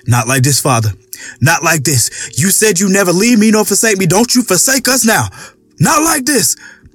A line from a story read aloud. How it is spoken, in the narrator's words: Daryl screamed aloud